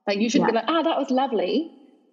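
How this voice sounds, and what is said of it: Australian speaker putting on another accent. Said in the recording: “did you hear my accent come through? ... the Australian trying to do that accent is hilarious”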